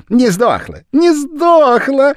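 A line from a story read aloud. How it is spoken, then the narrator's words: Joyful clamor. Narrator (Russian): радостно гомонил господин Мали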